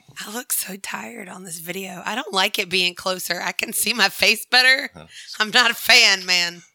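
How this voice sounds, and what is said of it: Rough, unwell-sounding voice. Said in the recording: “My voice is like, I'm not coughing anymore ... God, I sound awful.”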